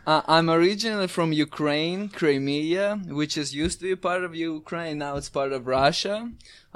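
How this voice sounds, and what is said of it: Exotic non-native English accent. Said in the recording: “you have a very exotic accent.”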